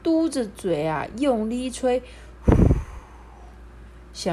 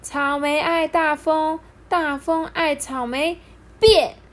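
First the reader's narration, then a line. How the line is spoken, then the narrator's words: Loud incantation. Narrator (Chinese): 大声念着咒语哦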